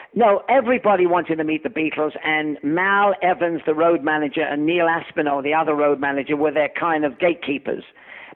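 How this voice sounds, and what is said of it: English accent. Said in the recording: “I had an English accent”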